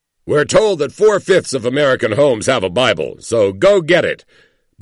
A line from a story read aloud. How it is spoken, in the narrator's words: bellows Penn Jillette